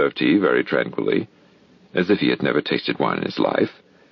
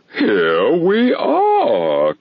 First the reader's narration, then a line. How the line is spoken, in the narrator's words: cried the king, laughing at his acute discovery of the coincidence